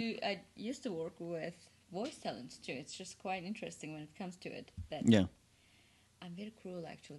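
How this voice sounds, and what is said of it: Turkish accent. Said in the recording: “we're poking fun of ... accent... Turkey, right?”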